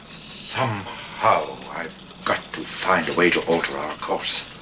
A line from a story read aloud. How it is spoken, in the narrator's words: Calming down, he stares out at the beautiful Crab Nebula, then mutters to himself